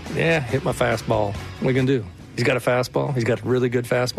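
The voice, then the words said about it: Texas accent, imitates another person's voice. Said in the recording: “How do we feel about ... Texas accent? ... I think it's pretty good bad. It's heard a lot of Bryce Miller. I thought it was pretty good. ... maybe ... speaks Texan”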